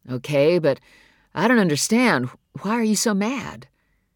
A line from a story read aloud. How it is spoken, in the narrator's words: His mother sighed